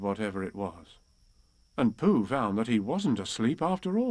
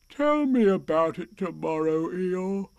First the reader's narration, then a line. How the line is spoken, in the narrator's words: said Pooh sleepily